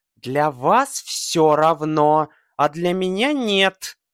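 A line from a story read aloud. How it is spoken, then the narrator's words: Tense, restrained angry reply. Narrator (Russian): отвечает русая головка, напряженно стараясь не выпустить из злобно и энергично сжатых губ более колкого ответа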